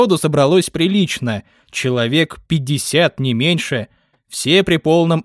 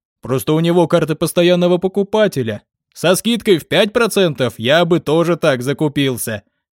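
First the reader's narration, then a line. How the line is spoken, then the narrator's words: Short laugh. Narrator (Russian): хохотнул он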